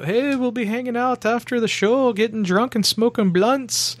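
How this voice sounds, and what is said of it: Poor imitation Irish accent. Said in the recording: “That's my horrible Irish accent. I apologize.”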